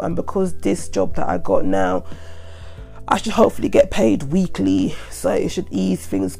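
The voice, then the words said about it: Congested voice from a cold. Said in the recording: “my voice just sounds bad, sorry about this, because I've got a head cold”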